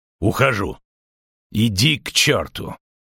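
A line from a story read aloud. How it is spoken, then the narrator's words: Rude curt retort. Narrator (Russian): также грубо бросил Истрид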